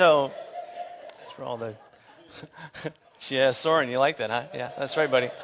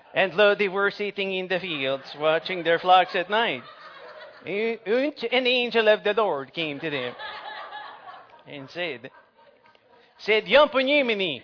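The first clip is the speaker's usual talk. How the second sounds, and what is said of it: Put-on Swedish accent. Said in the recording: “I should do the whole thing with a Swedish accent.”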